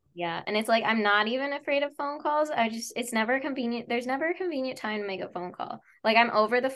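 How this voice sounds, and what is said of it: Usual voice. Nothing is said of it.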